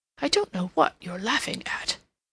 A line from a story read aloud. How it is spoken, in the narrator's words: he muttered